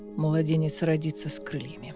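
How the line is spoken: Whisper. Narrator (Russian): прошептал Риз

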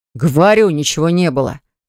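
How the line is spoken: Growling. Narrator (Russian): зарычал Баграт

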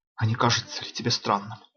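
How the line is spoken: Trembling whisper. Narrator (Russian): трепетным шепотом спросил Эстер

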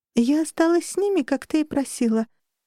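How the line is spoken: High musical voice. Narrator (Russian): ответила она высоким музыкальным голосом

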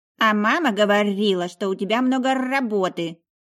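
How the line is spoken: Child's growl. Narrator (Russian): прорычал мой котенок

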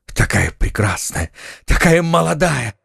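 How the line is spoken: Exclamation. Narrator (Russian): воскликнул Фельтон

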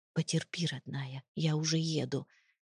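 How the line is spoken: Soft whisper. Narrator (Russian): тихо прошептал я

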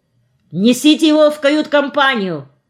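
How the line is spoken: Shouted. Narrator (Russian): крикнул нам капитан

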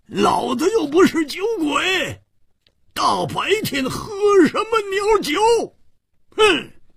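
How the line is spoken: Resentful loud roar. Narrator (Chinese): 胡铁花更是满肚子的怨气没处发，跳起来大声地吼叫着

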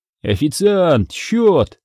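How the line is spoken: Shouted call. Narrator (Russian): выкрикнул я

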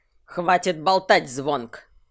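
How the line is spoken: Barked. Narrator (Russian): рявкнул шаман

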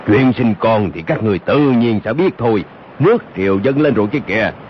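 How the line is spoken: Deep booming voice. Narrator (Vietnamese): giọng nói ồm ồm vang lên

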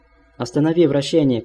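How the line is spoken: Shout drowned by desperate cries. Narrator (Russian): кричал Рауль, и его голос тонул в отчаянных криках операторов титанов

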